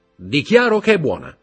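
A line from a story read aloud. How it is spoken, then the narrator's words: Shout. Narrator (Italian): gridò Morrel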